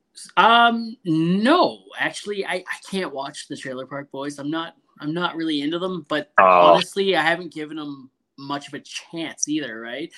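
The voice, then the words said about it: Canadian accent. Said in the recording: “You got that Canadian accent.”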